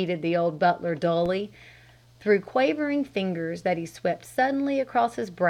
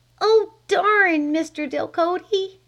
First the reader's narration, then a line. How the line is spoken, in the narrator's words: she cried